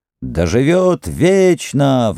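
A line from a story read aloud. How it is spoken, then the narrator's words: Crowd howling. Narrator (Russian): взвыли азиаты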